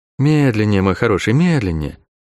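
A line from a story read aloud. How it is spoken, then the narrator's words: Gentle request. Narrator (Russian): ласково попросила указывающая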